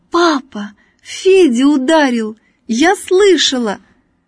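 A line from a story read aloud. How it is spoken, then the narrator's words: Sudden joyful shout, girl. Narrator (Russian): Вдруг Надя радостно закричала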